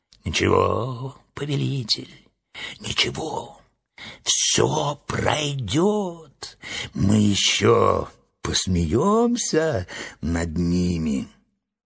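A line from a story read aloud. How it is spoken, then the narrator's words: Clown whispering in ear. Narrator (Russian): клоун Эотлинг шептал на ухо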